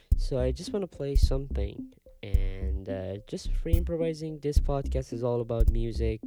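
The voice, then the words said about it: Non-native English accent. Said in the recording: “Sorry for my accent. I'm not Native American, but, you know, I try to act as an American.”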